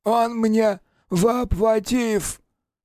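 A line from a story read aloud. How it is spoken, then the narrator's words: Hoarse wheeze. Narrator (Russian): прохрипел Ройль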